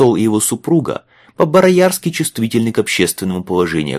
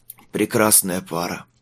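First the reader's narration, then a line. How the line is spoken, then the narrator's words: Hoarse. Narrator (Russian): хрипло выговорил Майлз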